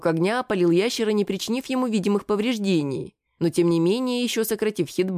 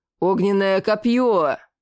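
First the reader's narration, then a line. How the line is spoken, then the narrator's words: Roaring shout. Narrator (Russian): зарычал паладин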